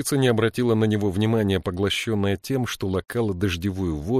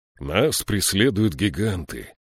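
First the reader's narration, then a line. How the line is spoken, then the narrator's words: Gloomy. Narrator (Russian): мрачно сказал Слудик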